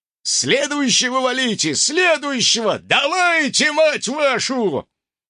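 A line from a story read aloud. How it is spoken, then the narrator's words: Roaring. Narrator (Russian): Друг, склеившего ласты непися, взревел подобно спонтанно кастрированному тигру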